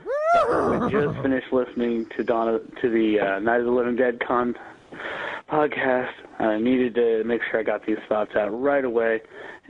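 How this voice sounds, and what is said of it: Hoarse voice. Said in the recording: “Excuse me if I'm a little hoarse. I got a pretty nasty cold right now.”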